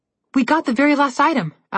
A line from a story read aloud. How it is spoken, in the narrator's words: Alex said happily